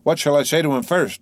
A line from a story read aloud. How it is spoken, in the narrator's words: said he